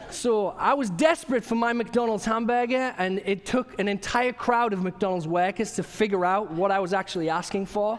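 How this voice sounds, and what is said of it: English accent. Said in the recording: “I sound a little bit different, maybe a little bit more pretty in the way I talk... I've got an accent. I'm originally from England.”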